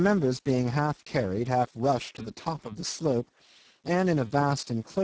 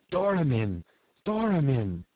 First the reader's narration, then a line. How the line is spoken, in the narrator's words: He had just breath enough to gasp out